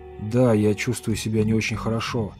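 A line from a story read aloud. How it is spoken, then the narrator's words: Plain. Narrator (Russian): сказал Портер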